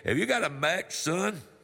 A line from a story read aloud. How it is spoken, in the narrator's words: chuckled